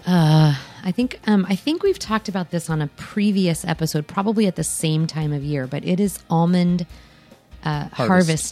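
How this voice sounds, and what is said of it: Raspy voice. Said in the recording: “You sound raspy today.”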